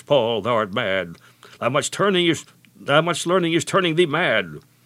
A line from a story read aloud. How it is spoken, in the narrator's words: Festus cried with a loud voice